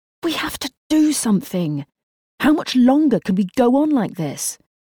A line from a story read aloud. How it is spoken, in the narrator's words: he exclaimed